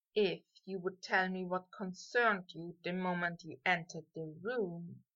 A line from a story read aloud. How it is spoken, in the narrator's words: Draco mumbled back